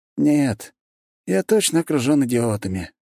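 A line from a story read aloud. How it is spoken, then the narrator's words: Dejected sigh. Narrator (Russian): сокрушенно вздохнул Оборин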